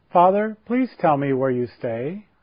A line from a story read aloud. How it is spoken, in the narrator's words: her voice clear and melodious